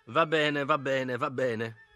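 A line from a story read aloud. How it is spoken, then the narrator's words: Plain. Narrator (Italian): disse Giorgi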